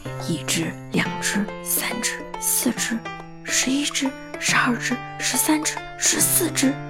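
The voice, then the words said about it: Quiet whispered counting. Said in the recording (Chinese): “他怕吵醒小猪，小声地数了起来”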